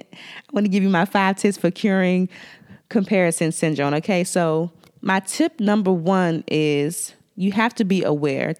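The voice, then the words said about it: Washington DC accent. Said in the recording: “with my DC accent”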